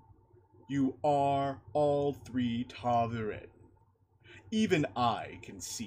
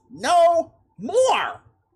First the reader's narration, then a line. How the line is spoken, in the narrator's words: Matt shouted